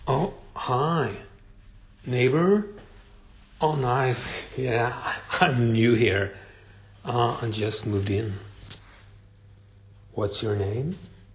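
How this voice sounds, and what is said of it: Swedish accent. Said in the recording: “You think my accent is strange? Well, I am Swedish.”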